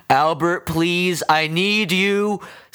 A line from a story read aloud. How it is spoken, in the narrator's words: Stavens shouted